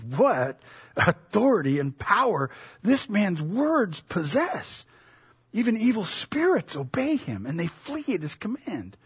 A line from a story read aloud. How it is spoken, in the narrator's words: Amazed, the people exclaimed